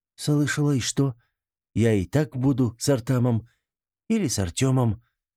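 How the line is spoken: Somewhat uncertain. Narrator (Russian): несколько неуверенно произнесла

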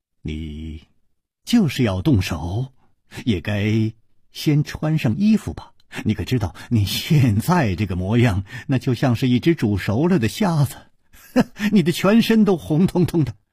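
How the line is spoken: Calm amused. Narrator (Chinese): 楚留香笑了笑，淡淡地说

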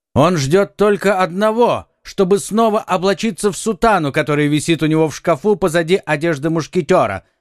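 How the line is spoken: Exclaiming. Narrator (Russian): воскликнул один из мушкетеров

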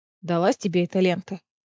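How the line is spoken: Muttered. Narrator (Russian): пробормотала Неста

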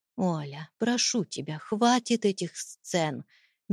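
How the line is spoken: Gentle, soft. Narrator (Russian): мягко произнес Чернов

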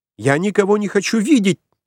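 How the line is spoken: Nervous female shriek. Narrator (Russian): нервно взвизгнула женщина

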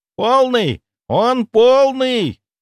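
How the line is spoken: Shouting loudly. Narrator (Russian): кричала на весь дом

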